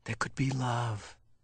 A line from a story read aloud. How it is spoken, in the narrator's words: Jonas whispered